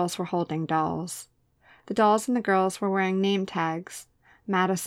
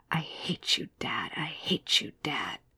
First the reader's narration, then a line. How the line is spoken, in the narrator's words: A boy whispering